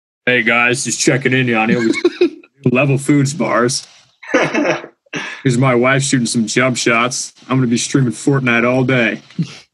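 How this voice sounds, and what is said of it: Imitates another person's voice. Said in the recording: “That's a good impression. ... Exactly how he looks when he talks.”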